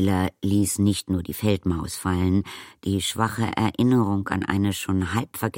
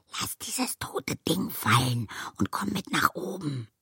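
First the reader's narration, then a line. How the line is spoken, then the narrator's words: Slightly louder repeat. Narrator (German): wiederholte Arietti etwas lauter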